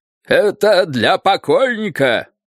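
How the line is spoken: Booming big man. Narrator (Russian): прогремел самый здоровенный из всех четверых

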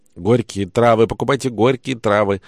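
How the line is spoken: Loud yell right by ear. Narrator (Russian): над самым ухом у него заорал торгаш

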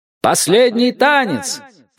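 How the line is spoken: Shout. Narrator (Russian): крикнул кто-то

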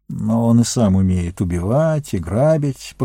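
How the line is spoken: Grumbling. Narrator (Russian): проворчал Сэм

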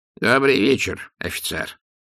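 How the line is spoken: Wizard's creaky voice. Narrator (Russian): проскрипел волшебник

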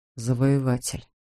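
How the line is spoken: Quiet. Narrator (Russian): тихо произнес он

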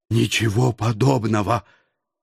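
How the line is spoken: Hoarse rasp. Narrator (Russian): прохрипел я

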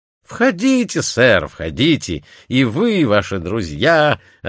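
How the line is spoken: Plain. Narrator (Russian): ответил привратник

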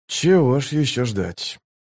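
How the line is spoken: Mumbling. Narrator (Russian): пробормотал он

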